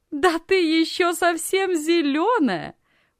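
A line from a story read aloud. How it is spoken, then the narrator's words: Loud laughter. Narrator (Russian): громко рассмеялась Анна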